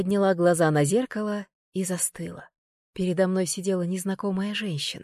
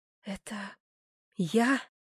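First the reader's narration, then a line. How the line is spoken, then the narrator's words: Whisper, voice breaking. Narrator (Russian): прошептала я, и голос сорвался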